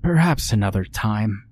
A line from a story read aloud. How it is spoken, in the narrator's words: she sighed